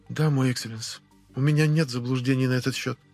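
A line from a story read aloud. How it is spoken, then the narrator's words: Muffled, hollow voice. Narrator (Russian): глухо проговорила аристократка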